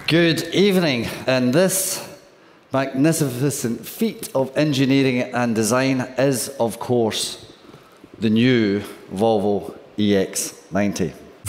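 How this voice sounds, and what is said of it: Swedish-accented English, somewhat Scottish-sounding. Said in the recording (Dutch): “dat Zweeds, dat lijkt een beetje op een Engels met een Schots accent ... Het is goed te verstaan ook wel.”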